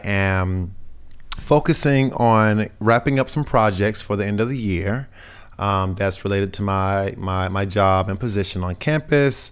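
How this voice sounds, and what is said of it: Slightly raspy voice. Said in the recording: “my voice is a little raspy, ... I'm feeling like I'm kind of catching a cold”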